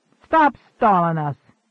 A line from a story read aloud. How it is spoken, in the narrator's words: snapped the blond man